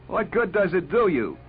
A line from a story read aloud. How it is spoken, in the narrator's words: he cried to Les Spear